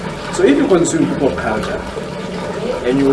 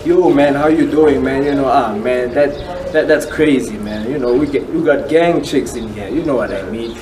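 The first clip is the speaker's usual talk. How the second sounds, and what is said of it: Put-on American pop-culture accent. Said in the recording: “you consume what I would call American culture, American pop culture, you hear by the accent”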